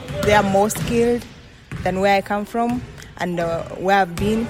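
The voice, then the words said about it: Speaks English with an accent. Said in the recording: “I love your accent”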